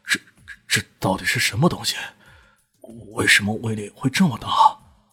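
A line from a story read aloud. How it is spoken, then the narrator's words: Breathless, panting, after pause. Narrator (Chinese): 大雄呼哧呼哧的喘着气，过了半晌才说道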